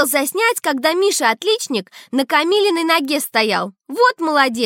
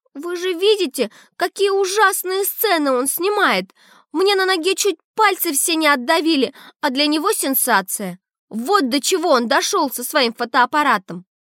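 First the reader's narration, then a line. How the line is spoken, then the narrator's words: Tearful. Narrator (Russian): Камила говорит сквозь слезы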